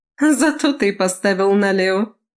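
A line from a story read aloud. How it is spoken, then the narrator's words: Laughing woman. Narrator (Russian): засмеялась она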